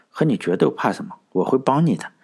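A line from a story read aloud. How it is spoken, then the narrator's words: Soft, relieved. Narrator (Chinese): 夏女士心里舒服了许多，柔声说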